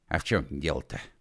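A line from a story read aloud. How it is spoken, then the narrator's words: Offended whisper. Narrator (Russian): спросил он обиженно шепотом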